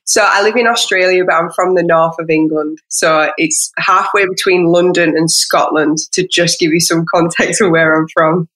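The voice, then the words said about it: Northern English accent, Scottish-tinged. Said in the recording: “has pretty much the funnest accent ever... you're gonna pick that Scottish up in her accent too”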